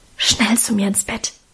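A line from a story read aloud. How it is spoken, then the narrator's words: Whisper. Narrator (German): flüsterte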